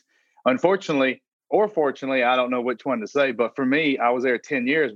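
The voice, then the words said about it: South Carolina accent. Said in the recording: “your accent is so specific ... I think ... from South Carolina”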